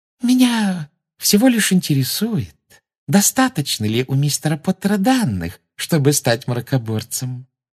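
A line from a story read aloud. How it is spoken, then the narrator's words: Sugary singsong voice. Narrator (Russian): Сладким голоском пропела Амбридж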